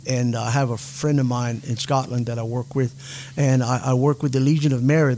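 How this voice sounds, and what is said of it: Slight Cajun accent. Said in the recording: “a little bit of a Cajun accent”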